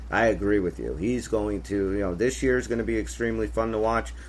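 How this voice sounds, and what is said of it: Pennsylvania accent. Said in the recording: “You have picked up a little Pennsylvania in your accent. ... He just sounds so fucking Pennsylvania just now.”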